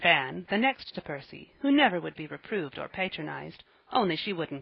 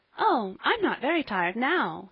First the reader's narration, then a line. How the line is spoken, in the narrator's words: said Polly, brightly, with a merry little laugh